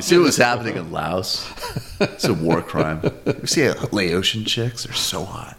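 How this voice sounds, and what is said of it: Charismatic Noam Chomsky, Howard Stern-style. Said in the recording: “a character right there, charismatic Noam Chomsky ... your next impression ... It would have to be like a sort of like Howard Stern style”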